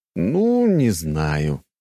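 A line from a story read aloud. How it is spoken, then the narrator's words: Drawn-out. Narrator (Russian): протянул я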